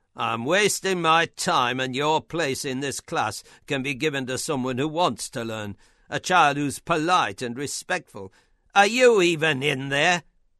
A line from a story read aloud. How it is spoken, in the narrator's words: shouted